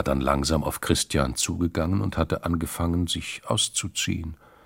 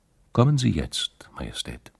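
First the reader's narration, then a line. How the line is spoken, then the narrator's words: Friendly. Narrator (German): freundlich zum König gesagt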